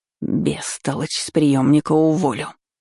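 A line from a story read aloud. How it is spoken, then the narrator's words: Heated hiss. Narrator (Russian): с чувством прошипела Ванда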